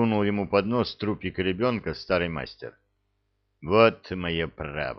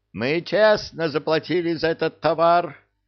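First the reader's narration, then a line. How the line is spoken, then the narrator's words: Yelling again. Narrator (Russian): снова заорал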